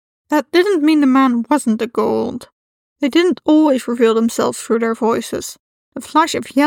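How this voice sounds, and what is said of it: Usual voice. Nothing is said of it.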